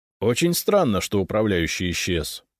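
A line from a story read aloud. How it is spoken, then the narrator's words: Dry. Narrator (Russian): сухо кивнул Фискалов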